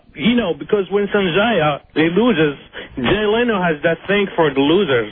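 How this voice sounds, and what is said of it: Mexican accent. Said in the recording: “Where are you from originally with that accent, sir? ... Mexico.”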